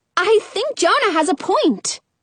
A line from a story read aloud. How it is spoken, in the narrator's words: I exclaim